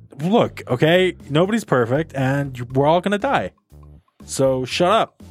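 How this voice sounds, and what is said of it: Usual voice. Nothing is said of it.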